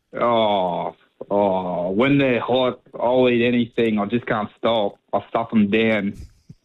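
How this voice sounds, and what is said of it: Impression of a comic character. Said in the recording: “yours was a fairly good, you know, impersonation of it.”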